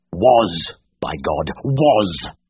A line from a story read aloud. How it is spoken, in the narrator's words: Siegfried snarled